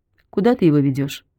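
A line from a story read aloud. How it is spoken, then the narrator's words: Plain. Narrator (Russian): спросил Константин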